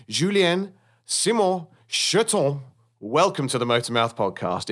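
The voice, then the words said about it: Put-on French accent. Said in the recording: “in my best French accent ... well done for your French accent. Very good. ... I give you a triple A.”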